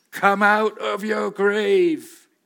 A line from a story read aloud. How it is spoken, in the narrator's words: he cried